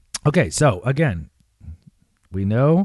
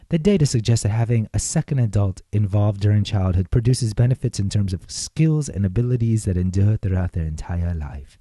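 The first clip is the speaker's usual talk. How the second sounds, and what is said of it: Bad put-on British accent. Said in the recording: “That's a real bad British accent”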